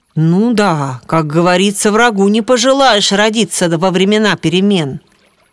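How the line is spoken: Deep bass voice. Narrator (Russian): пробасил Володя

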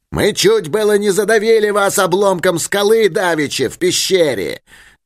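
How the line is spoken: Yelling again. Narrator (Russian): завопил он снова

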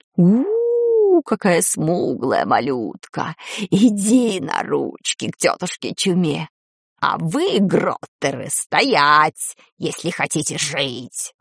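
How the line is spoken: Hoarse wheeze. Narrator (Russian): прохрипел кто-то

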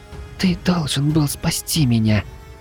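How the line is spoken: Tearful child's whisper. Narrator (Russian): Едва сдерживая слёзы, прошептала малышка мне на ухо

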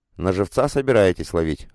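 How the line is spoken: Snort. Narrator (Russian): хмыкнул Эрик, вполне осознав, о чем идет речь

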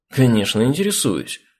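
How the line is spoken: Exclaimed. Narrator (Russian): воскликнул Керх

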